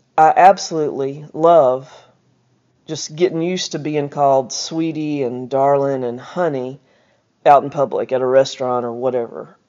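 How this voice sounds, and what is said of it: Southern American accent. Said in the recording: “I kind of like my voice, and I mean that, the southernness of it.”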